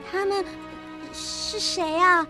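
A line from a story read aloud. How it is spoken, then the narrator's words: Slightly trembling voice. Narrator (Chinese): 温蒂的声音微微颤抖着说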